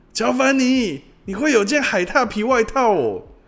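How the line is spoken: Crowd clamoring. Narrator (Chinese): 大伙儿随即跟着叫嚷起来

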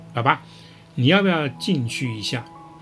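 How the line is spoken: Slow. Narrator (Chinese): 缓缓说道

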